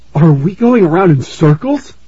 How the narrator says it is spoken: Aaron asked, gasping for breath

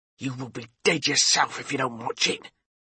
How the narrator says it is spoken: he hissed in my ear

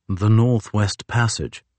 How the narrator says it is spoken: Commander Fitzjames said softly

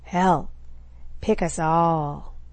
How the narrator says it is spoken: Dag drawled

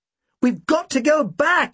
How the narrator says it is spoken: I shouted

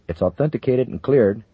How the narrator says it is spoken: Brostrom said in a shaky voice

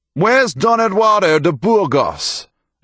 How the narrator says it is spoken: another shouted

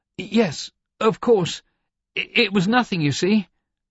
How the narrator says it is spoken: he exclaimed

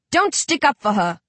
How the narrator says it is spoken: Rage barks

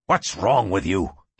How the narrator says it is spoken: Kincaid snapped

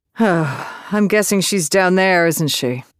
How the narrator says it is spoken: she sighed

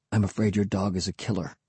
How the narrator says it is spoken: he said softly to me

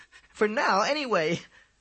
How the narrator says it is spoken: added with a loud laugh

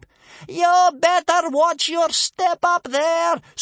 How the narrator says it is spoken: screamed Bear Cub's grandmother, howling up at the ceiling like a wolf

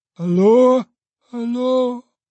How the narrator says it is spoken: was mournfully protracted by the echoes

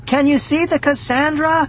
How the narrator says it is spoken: I shouted

